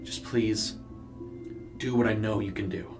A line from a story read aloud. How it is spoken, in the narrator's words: he mumbled